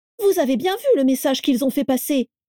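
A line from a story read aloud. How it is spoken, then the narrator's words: Shouted. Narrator (French): cria Carla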